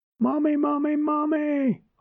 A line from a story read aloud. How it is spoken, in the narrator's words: I squealed